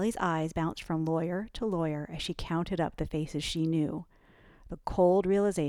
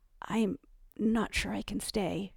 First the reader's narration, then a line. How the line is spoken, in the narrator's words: she murmured to Annika